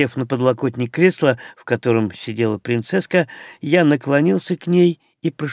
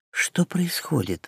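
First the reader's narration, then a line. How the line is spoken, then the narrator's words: Quiet. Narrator (Russian): так же тихо проговорила Шарха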